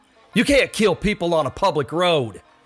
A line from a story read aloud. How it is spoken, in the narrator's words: he called out